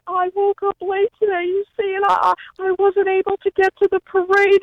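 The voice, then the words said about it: Impression of Suzanne Muldowney. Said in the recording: “doing Suzanne Muldowney ... a.k.a. Underdog Lady ... your impression of her”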